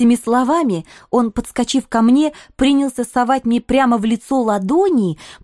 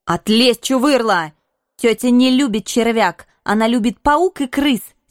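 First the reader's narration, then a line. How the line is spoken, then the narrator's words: Angry, dismissive. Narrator (Russian): сердито отмахнулась я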